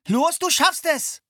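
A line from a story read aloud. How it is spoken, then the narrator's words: Calling out encouragement. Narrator (German): rief Philipp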